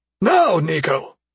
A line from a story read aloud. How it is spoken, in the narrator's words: Basin shouted